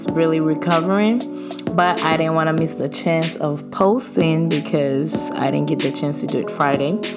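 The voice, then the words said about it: Voice sounds a little off. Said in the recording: “my voice sounds a little funny ... my voice is”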